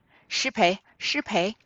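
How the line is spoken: Laughing, two girls. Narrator (Chinese): 探春、宝琴二人笑道

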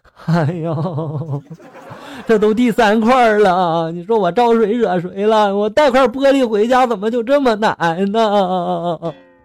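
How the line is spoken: Sobbing loudly. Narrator (Chinese): 男子倒地就大哭了，就说了

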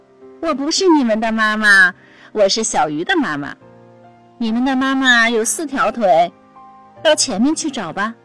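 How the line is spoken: Laughing. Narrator (Chinese): 大鱼笑着说

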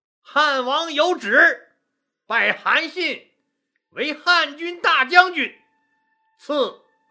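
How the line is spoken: Loud proclamation. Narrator (Chinese): 萧何大声宣布

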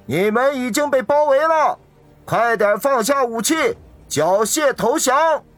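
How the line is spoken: Loud shout through megaphone. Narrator (Chinese): 其中一个人拿着喇叭，大声地喊道

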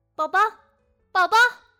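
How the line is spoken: Anxious shout. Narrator (Chinese): 一下子没看到自己的孩子，他焦急的喊道

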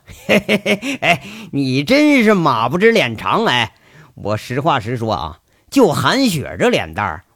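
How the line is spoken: Laughing. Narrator (Chinese): 林国庆又笑了

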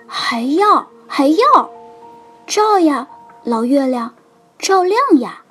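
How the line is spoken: Crying out. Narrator (Chinese): 海沃尔曼叫着

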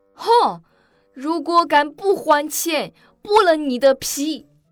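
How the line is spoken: Loud yelling. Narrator (Chinese): 夏绿蒂已经大声的嚷嚷道

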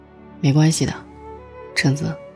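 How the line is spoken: Soft, choked-up whisper. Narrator (Chinese): 我鼻子突然一酸，在他耳边轻声说

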